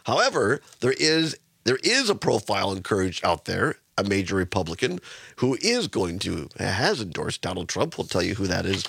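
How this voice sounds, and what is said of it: Hoarse, congested voice. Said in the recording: “You can probably tell it in my voice... allergies and cold... this the frog in my throat”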